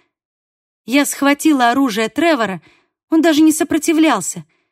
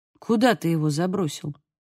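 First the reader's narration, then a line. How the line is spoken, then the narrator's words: Quiet question. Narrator (Russian): тихо спросил Фагус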